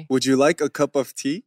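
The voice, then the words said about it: Weird attempt at English accent. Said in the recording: “can you do the English accent ... It sounds so weird. ... It sounds like saturi.”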